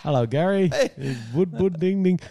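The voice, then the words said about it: Put-on Indian accent. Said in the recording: “he was Indian too ... I don't think you can do accents anymore”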